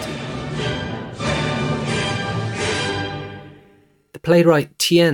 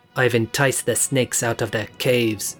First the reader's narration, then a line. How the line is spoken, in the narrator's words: Mao cackled